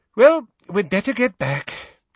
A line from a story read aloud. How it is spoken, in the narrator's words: sighed Mrs